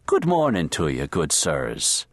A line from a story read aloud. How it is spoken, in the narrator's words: the red beard spouted in a booming brogue